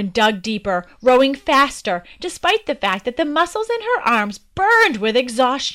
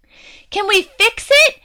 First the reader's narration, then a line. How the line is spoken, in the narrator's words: their mother yelled, looking around for something to patch the leak